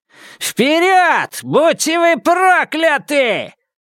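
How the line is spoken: Yell. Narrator (Russian): завопил Темса

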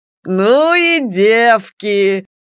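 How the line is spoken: Old man's hearty laughter. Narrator (Russian): расхохотался дед Максим

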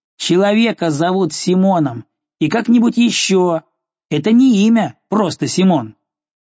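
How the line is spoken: Boy shouting. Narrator (Russian): Парнишка крикнул ему

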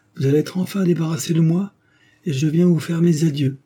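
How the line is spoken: Sneering. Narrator (French): dit-elle en ricanant

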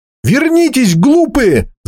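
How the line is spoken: Shouted. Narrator (Russian): закричал Грен

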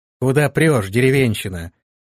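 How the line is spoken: Rude, vindictive. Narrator (Russian): грубо и мстительно произнесла она

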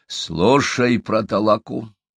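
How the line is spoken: Stern. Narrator (Russian): строго сказал Доксо, обращаясь к Удоге

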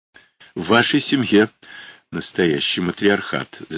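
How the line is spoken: Laughing. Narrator (Russian): засмеялся Русинов

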